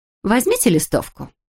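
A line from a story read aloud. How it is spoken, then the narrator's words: Cheerful, perky. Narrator (Russian): бодреньким голосом предложила она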